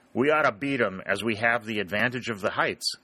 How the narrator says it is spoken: exclaimed Sherburne

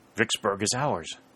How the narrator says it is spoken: said Dick

